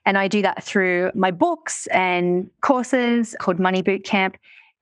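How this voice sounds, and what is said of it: Australian accent. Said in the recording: “I live in Australia, if you can't tell by my accent.”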